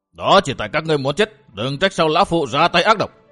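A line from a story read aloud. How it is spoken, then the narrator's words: Old man's shout. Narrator (Vietnamese): Lão quái nhân quát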